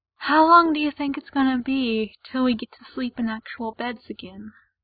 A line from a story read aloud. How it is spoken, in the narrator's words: Ray asks wistfully